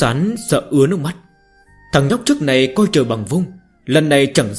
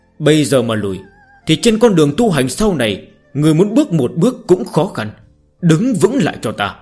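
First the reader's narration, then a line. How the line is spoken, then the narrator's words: Old man, harsh. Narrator (Vietnamese): Đứa trẻ quá sợ hãi, ông lão mà nói với giọng tàn nhẫn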